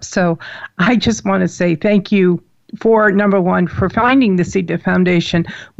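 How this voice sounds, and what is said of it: Choked-up, emotional voice. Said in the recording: “I'm all choked up.”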